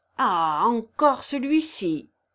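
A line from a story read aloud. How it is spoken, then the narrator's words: Shouting again. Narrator (French): vociféra-t-il de nouveau à la vue de Kirillov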